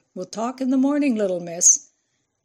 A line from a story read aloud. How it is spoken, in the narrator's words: Ralph shouted at her